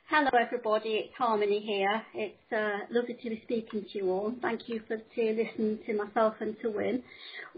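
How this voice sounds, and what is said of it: British accent. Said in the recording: “having a little bit of a strange accent ... calling in from the UK”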